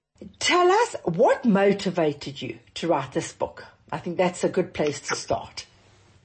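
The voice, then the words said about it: South African accent. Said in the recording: “I love the South African accent... It's such a delightful, well, such a delightful accent.”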